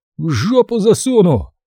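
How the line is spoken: Groaning reply. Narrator (Russian): простонав, ответил качок

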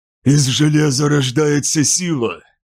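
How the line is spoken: Forced through clenched teeth. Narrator (Russian): выдавил Кидамар, стиснув зубы

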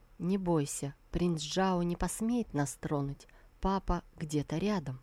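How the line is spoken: Quiet whisper. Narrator (Russian): Ему на ухо она тихо прошептала

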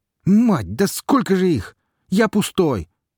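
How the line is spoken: Shouting. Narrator (Russian): крикнул шмык

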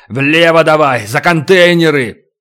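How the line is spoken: Barked. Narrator (Russian): Ставро рявкнул

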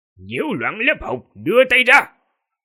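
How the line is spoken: Cold stern shout. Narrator (Vietnamese): tiên sinh Tư Thục mặt lạnh quát

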